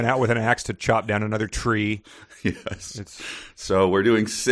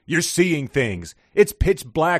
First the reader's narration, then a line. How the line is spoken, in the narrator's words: yelled